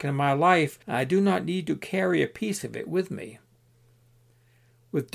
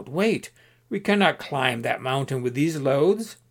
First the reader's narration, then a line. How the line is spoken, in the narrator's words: his companions called out